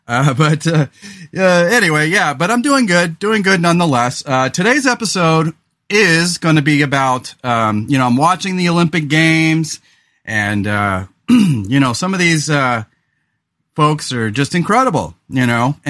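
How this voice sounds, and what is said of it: Slightly hoarse, throaty voice. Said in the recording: “my voice is a little off today. I'm having some pretty bad allergies, and I've got a frog in my throat”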